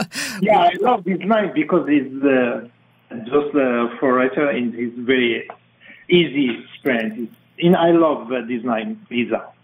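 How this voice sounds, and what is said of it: Strong foreign accent. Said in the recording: “that fantastic accent”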